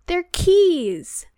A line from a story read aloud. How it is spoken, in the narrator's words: Harry shouted